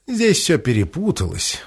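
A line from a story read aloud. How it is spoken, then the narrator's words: Old woman's sigh. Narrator (Russian): вздохнула старая Адира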